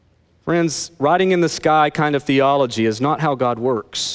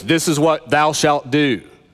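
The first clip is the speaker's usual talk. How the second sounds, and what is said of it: Strong, commanding God-like voice. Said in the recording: “that audible word from God that God says in that strong voice”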